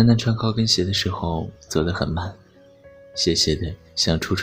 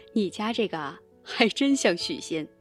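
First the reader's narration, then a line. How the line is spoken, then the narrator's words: Gentle teasing woman. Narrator (Chinese): 那老板娘还温柔的笑他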